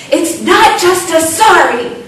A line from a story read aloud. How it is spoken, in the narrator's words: you'll hear one of them yell